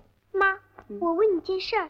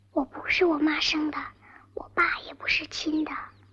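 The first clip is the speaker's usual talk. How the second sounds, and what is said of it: Whispering, hushed voice. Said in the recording (Chinese): “咱们小声说”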